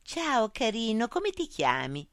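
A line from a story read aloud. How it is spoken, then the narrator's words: Sugary voice. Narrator (Italian): chiese con voce zuccherosa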